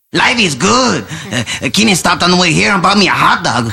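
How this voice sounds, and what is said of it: Exaggerated caricature accent. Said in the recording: “That accent, to me, does feel racist... This one is more exaggerated. It's not just an accent. It's a caricature.”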